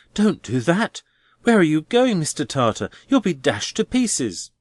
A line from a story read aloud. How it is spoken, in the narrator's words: cried Neville